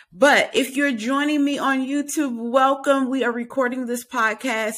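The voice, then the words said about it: Strained, failing voice. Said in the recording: “It sounds like I'm about to lose my voice right now. ... sounds like I'm about to lose my voice.”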